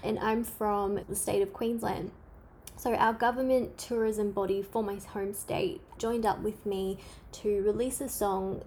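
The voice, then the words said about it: Australian accent. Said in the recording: “I'm from Australia. You can't tell by my accent.”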